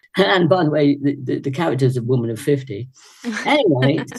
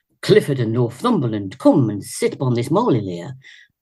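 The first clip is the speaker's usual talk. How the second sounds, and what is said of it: Leicester accent. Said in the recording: “That's how it sounded like with my Leicester accent.”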